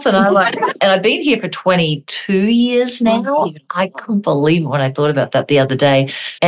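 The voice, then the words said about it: Australian accent. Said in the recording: “accent ... I'm from Australia”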